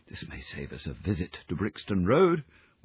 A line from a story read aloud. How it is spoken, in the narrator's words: whispered Holmes